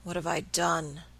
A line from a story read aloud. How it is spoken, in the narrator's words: he murmured hopelessly